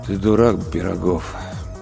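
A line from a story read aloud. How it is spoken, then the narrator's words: Dull voice, ghost. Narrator (Russian): тусклым голосом произнес призрак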